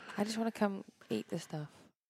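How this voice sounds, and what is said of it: Speaking softly. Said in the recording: “Why are you talking so soft today?”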